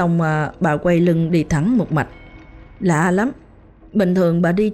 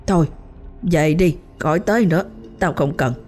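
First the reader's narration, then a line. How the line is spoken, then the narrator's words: Harsh, stern. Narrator (Vietnamese): bà ba gằn giọng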